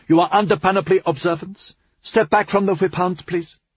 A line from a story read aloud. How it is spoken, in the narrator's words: she called out